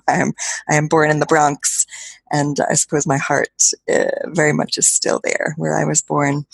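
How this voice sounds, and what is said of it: American accent. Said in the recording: “they're surprised that they hear an American accent.”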